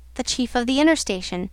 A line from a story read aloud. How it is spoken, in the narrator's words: he answered in a short tone